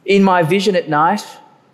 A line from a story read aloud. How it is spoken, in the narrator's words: Daniel says